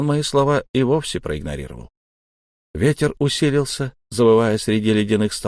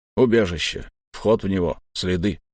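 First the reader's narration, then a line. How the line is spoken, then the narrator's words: Grumbling lanky soldier. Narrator (Russian): пробурчал долговязый штурмовик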